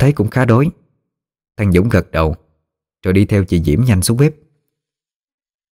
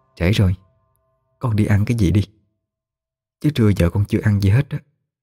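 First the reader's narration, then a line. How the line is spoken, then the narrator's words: Soft murmur in ear. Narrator (Vietnamese): chị Diễm nhỏ giọng nó vào tai nó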